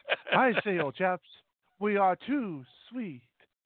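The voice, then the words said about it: Put-on dignified English accent. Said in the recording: “a dignified English accent”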